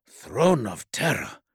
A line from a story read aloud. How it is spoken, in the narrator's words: breathed Zetos